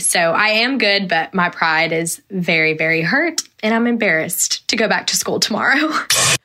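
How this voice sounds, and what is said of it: Speaks with a distinctive accent. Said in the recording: “I love your accent... I, I do love your accent.”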